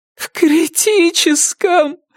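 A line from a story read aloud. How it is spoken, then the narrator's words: Moaning. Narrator (Russian): простонала Вера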